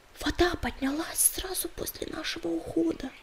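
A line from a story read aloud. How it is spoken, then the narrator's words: Whisper. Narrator (Russian): прошептала она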